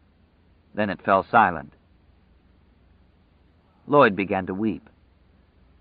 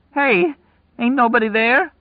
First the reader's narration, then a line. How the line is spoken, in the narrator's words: Lloyd cried, his voice breaking